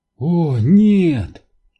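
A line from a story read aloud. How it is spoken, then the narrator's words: Despairing breath. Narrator (Russian): в отчаянии выдохнула Нелл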